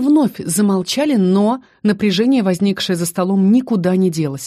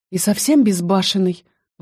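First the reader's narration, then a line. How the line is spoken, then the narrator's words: Breathed out. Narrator (Russian): выдохнула на сей раз Феста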